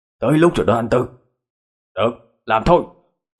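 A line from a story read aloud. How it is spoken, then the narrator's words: Shouting. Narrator (Vietnamese): hét lên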